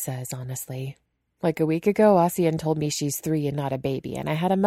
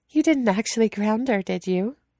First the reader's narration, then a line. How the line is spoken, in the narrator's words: Yanli asks, sounding a little like she's fighting laughter over Weighing's plight